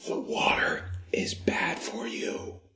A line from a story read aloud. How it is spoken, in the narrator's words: he whispered to me